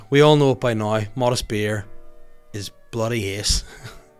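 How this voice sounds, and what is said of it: Put-on full Australian accent. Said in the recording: “Don't know why I turned into full Australian there”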